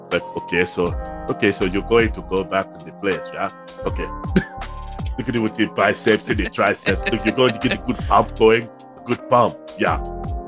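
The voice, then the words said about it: Put-on Austrian accent. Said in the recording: “I'm pretty sure I was doing a freaking Austrian accent ... Klaus sounds like Arnold Schwarzenegger. It's a very subtle Arnold Schwarzenegger. He switches from Swedish to Austrian to German accents”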